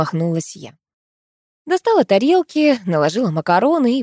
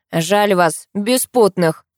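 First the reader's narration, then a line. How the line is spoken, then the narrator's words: Snorting chuckle. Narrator (Russian): хмыкнул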